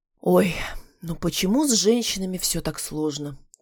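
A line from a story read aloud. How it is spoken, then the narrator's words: Theatrical sigh. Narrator (Russian): театрально вздохнул рассудительный парень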